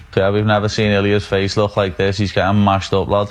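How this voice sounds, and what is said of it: Very thick British accent. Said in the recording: “He's from England, and Patty Pimblett has a very, very thick British accent”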